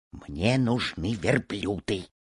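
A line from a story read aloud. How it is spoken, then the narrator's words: Quiet reply. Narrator (Russian): тихо ответил ему товарищ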